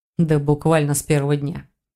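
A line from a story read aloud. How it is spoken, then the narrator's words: Amused snort. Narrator (Russian): хмыкнул Рейн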